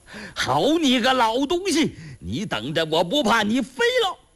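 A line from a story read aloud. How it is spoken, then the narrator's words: Shouting while riding. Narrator (Chinese): 山大王骑在马上，一边跑一边喊呐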